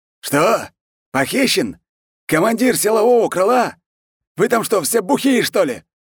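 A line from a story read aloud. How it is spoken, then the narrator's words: Frenzied yelling. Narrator (Russian): Канцлер Румянцев орал, как не в себя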